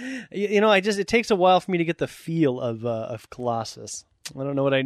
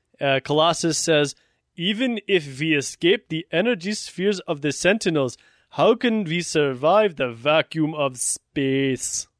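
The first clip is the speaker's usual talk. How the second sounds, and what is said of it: Bad Russian accent, sounds German. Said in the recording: “That's a terrible Russian accent ... That was more of a German accent.”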